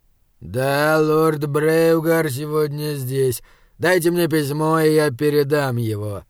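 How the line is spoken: Through gritted teeth. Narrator (Russian): процедил сержант

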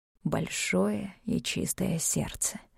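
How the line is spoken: Barely audible mutter. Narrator (Russian): пробормотал едва слышно, да еще сноходец

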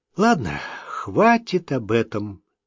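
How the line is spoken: Sighing. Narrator (Russian): вздохнула

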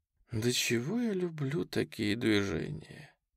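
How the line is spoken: Sighing. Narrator (Russian): вздохнула первая травец

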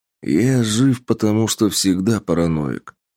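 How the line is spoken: Grumbled. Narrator (Russian): буркнул Тапок

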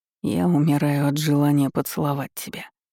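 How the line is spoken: Close intimate whisper. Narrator (Russian): шепнул прямо в губы

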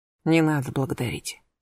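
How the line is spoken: Said quietly. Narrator (Russian): тихо сказал

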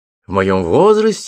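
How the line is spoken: Exclamation. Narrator (Russian): воскликнул я

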